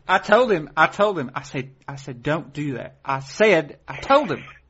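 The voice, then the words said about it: Effete put-on Southern woman's accent. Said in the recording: “You need to work on your accent, because that's a little ... not Mississippi. ... Effete. ... I was kind of doing a woman.”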